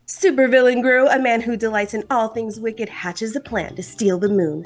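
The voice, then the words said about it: Movie trailer announcer voice. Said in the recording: “my announcer voice”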